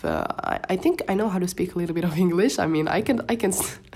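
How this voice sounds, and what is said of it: Moroccan-accented English. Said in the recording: “I'm Moroccan and we just speak Darija and French ... English is my third language ... excuse my accent”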